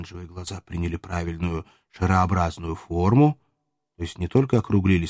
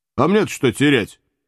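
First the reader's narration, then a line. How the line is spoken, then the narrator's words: Snorting. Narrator (Russian): хмыкнул Иван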